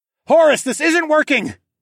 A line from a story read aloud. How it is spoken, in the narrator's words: called out